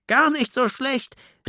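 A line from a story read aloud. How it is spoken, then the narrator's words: Group calling, laughing loudly. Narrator (German): riefen und lachten laut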